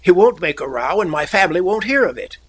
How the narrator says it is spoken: cried Talbot hopefully

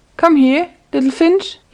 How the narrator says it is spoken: he cried

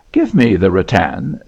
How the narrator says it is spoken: said Edward, half laughing

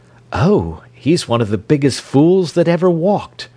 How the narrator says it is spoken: she cried

